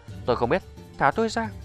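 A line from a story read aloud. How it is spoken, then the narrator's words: Frightened hurried old man. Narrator (Vietnamese): Lão già ... lộ vẻ sợ hãi vội nói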